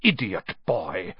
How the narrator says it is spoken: snarled Snape

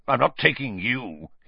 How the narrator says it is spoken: he snarled

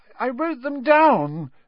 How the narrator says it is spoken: Neville was saying tearfully

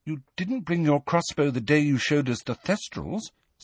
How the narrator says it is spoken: said Hermione timidly

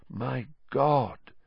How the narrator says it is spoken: said Lupin softly

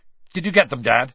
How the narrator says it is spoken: said Bill, sharply

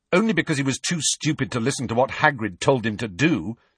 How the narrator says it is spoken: said Harry angrily

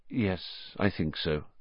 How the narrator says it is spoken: said Lupin grimly

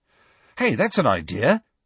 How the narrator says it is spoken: said Ron excitedly

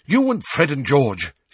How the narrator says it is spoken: she said impatiently

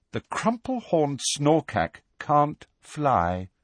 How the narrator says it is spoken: said Luna in a dignified voice

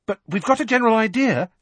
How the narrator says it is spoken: she added hastily

